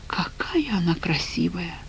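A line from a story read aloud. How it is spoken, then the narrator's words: Sighing. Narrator (Russian): вздохнула Катя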